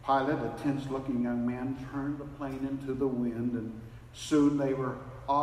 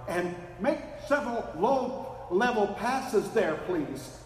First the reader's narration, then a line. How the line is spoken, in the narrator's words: shouted the photographer